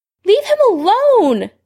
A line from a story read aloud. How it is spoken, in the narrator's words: Lily yelled